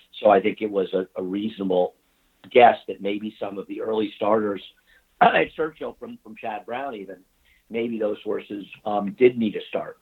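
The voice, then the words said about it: Hoarse, throaty voice. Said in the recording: “while I have a frog in my throat”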